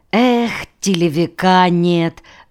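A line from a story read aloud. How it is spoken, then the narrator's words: Sigh. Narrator (Russian): вздохнул Варя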